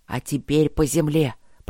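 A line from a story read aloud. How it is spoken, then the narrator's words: Hissed. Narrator (Russian): прошипел он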